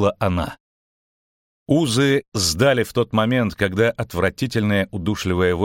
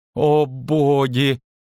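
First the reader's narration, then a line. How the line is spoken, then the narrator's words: Astonished moan. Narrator (Russian): изумленно простонал Лютик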